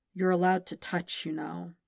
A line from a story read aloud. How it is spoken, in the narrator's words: he said in a low, rasping voice